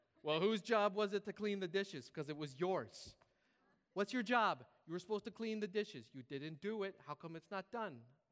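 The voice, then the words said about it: Mom voice with Scandinavian accent. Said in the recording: “my mom's from like, who's the boss or something. I don't know what happened to this voice. ... Why am I doing this accent? ... Westerholm, Scandinavian. ... Why am I doing this voice?”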